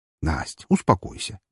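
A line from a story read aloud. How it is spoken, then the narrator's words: Soft. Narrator (Russian): мягко сказал я ей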